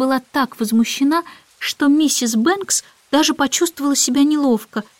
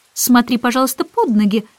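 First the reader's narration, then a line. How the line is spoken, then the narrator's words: Stern remark. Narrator (Russian): строго заметила Мэри Поппинс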